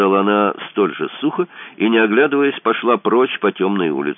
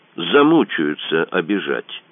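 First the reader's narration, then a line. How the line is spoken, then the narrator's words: Dry. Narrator (Russian): сухо сказала она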